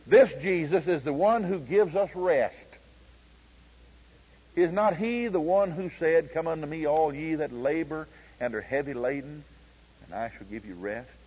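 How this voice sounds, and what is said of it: Oklahoma accent. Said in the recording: “This accent's not bothering you, is it? This Oklahoma accent?”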